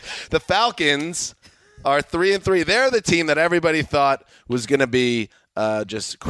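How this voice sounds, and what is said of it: Usual voice. Nothing is said of it.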